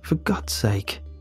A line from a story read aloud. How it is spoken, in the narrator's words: I mutter to myself